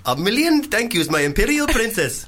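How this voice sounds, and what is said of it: Put-on Indian accent. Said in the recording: “Do another one. Indian. ... It's not so much the accent that's racist”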